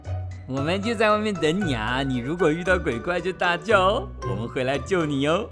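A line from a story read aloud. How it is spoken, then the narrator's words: Group joking. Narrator (Chinese): 大家开玩笑地说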